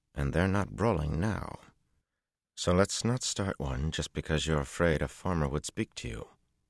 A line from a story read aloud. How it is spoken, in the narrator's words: he said through his teeth